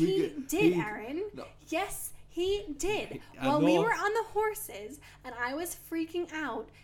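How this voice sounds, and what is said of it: Usual voice. Nothing is said of it.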